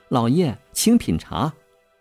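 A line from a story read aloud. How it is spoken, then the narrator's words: Soft, gentle voice. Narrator (Chinese): 女士……柔声说道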